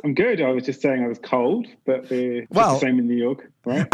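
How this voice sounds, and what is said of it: British accent. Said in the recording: “do we detect an accent here ... being British, we kind of know the accent gets places”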